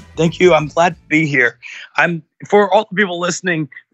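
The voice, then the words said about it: Hoarse, strained voice. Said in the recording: “this is not my normal voice. I've got a little bit of laryngitis,”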